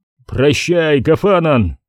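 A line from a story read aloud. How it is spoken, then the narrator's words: Shouted. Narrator (Russian): крикнул он другу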